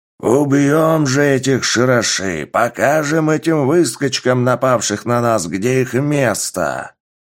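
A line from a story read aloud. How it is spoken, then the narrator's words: Growling lord. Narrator (Russian): рычал пространственный лорд ковчега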